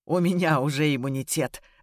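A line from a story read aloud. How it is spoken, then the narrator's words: Muffled laugh. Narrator (Russian): рассмеялся, вжимаясь губами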